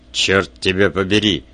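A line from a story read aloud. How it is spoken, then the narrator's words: Angry grumble. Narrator (Russian): сердито пробурчал Вульф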